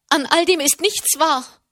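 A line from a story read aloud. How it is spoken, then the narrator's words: Loud calling. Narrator (German): rief sie laut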